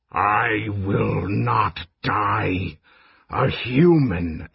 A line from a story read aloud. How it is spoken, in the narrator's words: Immolatus hissed